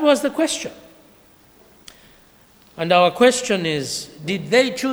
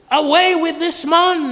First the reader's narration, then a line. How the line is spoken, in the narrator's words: They yelled back at Pilate